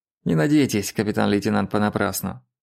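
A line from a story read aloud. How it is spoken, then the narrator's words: Unpleasant voice. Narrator (Russian): неприятным голосом сказал Винман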